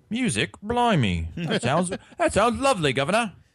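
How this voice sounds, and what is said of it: Put-on British accent. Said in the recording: “Hopefully, ... can learn to do a new British accent.”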